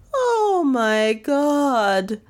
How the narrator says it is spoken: wailed Lizzie from her corner

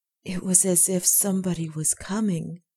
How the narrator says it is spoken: whispered Cecily

